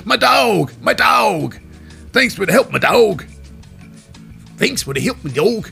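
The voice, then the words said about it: Imitates another person's voice. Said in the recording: “This me Finn Balor accent.”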